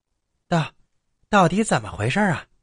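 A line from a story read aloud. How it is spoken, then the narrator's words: Terrified, trembling. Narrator (Chinese): 太恐怖了，王麻子惊颤的回答道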